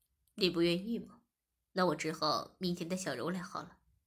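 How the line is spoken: Laughing. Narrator (Chinese): 我笑着说

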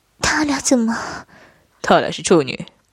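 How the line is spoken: Angry. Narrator (Chinese): 不禁气道

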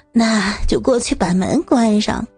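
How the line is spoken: Smiling. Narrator (Chinese): 她笑了笑说

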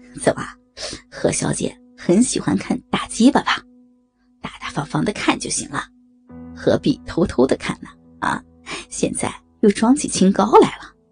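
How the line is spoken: Leering laugh. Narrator (Chinese): 高强淫笑道

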